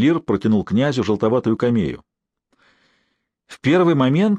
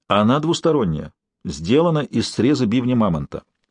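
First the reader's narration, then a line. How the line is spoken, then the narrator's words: Calm explanation. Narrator (Russian): спокойно пояснил Тикш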